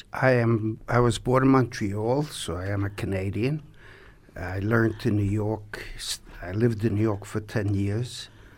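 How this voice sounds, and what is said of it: New York-influenced North American accent. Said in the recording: “That's probably where my accent is more from. ... we're going to get back to your accent”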